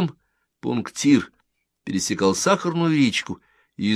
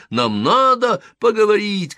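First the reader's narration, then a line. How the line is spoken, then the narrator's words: Shout. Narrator (Russian): кричал он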